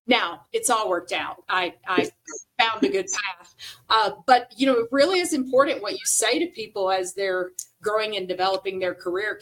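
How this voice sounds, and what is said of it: Southern American accent. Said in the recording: “never lose a Southern accent”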